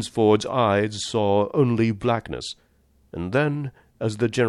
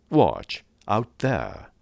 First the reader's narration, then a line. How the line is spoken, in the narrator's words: exclaimed the General